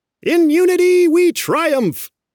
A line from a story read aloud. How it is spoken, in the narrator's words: It's a rally cry, like the little California quails are yelling